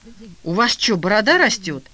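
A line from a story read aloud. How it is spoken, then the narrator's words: Speaking through gritted teeth. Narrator (Russian): я процедила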